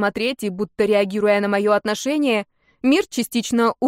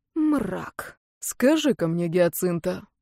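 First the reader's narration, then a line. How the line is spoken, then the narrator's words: Deceptively soft. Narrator (Russian): обманчиво мягко заговорил Фейн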